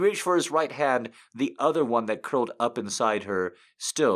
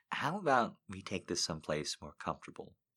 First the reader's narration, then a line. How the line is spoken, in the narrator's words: she asked in her best seductive voice